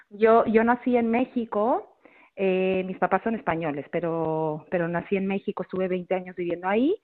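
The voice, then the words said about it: Non-local Spanish accent. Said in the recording (Spanish): “este acento tuyo no es de Monforte de Lemos ... con ese acento tan delicioso”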